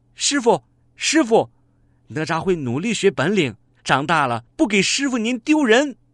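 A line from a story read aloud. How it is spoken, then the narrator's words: Sweet child's call. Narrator (Chinese): 小哪吒甜甜的叫着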